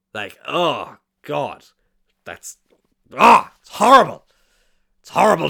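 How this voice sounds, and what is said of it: Poor Vince McMahon impression. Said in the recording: “my terrible Vince McMahon impression.”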